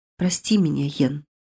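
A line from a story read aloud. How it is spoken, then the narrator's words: Silent whisper. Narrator (Russian): беззвучно шепнули губы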